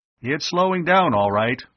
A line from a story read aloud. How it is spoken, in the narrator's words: Arv called out